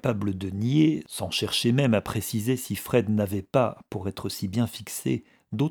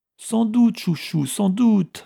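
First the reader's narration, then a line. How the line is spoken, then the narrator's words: Pleading. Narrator (French): implora Guiret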